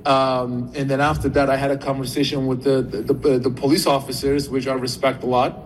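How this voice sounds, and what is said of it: Turkish accent. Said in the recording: “he originally from Turkey. That's the accent.”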